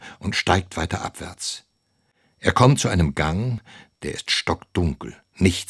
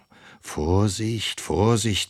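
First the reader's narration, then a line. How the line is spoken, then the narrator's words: Boy warning himself. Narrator (German): mahnt der Junge sich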